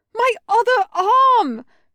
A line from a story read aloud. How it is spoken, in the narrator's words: Spike shouted